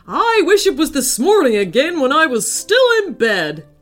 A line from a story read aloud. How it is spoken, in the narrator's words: he shouted